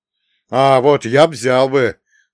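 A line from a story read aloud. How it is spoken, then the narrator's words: Loud, smirking. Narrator (Russian): с усмешкой громко заявил стоящий с ним рядом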